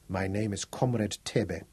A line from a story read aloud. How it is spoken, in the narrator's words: he said quietly